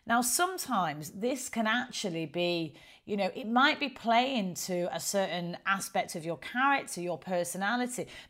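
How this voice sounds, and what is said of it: Strong northern English accent. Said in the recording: “look at me, I've got quite a strong northern accent ... I do speak with a northern accent”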